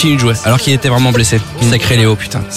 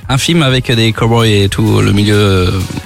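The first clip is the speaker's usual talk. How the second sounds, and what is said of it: Speaks with a put-on accent. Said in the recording (French): “Pourquoi tu changes d'accent? Pourquoi tu prends l'accent?”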